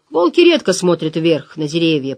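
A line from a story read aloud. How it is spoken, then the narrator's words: Grumbling. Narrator (Russian): проворчал Элиас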